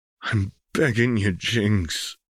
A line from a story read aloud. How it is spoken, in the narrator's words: Vi whispered, even knowing it would be in vain